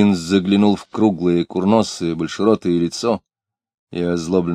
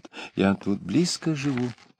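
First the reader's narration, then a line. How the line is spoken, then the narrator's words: Pleading whisper. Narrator (Russian): за плечом Клима звучал упрашивающий шепот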